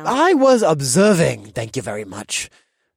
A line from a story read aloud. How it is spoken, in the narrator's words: the sloppy man grumbled